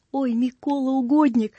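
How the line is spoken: Silent desperate plea. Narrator (Russian): взмолился в уме солдат

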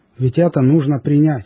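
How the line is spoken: Plain. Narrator (Russian): говорит он

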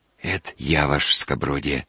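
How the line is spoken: Hoarse voice. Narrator (Russian): проговорил Лучкин сиповатым голосом

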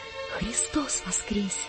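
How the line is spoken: Shy flustered whisper. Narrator (Russian): Сам не свой … весь зардевшись, опустив глаза, я прошептал

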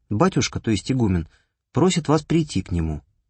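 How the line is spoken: Novice's calm statement. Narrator (Russian): какой-то послушник спокойно сказал

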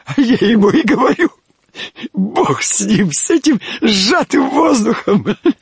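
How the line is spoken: Speaking through laughter. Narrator (Russian): Выговорил он сквозь смех

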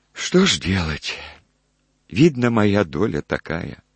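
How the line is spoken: Old woman sighing. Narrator (Russian): вздохнула старуха

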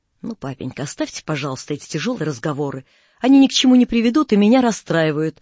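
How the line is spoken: Daughter's sharp objection. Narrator (Russian): резко возражала дочь

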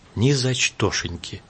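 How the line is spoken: Happy, quiet but firm. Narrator (Russian): счастливо вспоминая Сашкин поцелуй … тихо, но твердо

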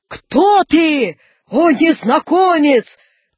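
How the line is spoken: Shout. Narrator (Russian): крикнул Наполеон

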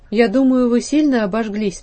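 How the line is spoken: Plain. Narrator (Russian): спросил я

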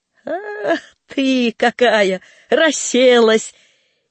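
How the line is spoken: Laughing. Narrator (Russian): посмеялся

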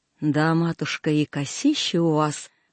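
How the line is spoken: Admiring voice from behind. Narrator (Russian): восхищенно сказал кто-то сзади

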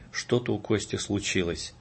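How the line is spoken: Whisper. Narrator (Russian): Марина, женское сердце, шепнула мне

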